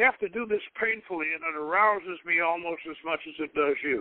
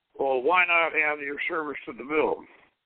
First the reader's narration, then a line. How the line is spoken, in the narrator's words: replied in a breathless sigh